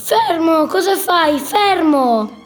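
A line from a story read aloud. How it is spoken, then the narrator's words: Guard yelling. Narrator (Italian): il guardiano gli urlava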